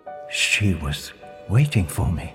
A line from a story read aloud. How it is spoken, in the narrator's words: Barbara whispered to Ian